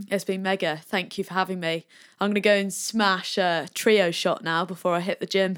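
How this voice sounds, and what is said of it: Mixed Australian and American accent. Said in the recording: “sounds Australian and American all in one ... your accent will sound the same”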